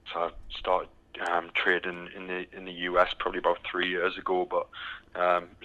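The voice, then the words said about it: British accent. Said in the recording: “as you can tell by the accent, I'm from the from the UK ... still haven't got the Texas accent quite yet”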